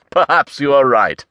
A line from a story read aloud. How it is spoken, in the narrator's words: Blackheart laughed